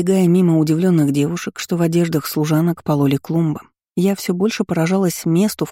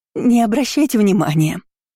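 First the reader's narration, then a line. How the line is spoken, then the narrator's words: Unctuous, wheezing voice behind. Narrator (Russian): послышался елейный голос за спиной, переплетенный с хриплой одышкой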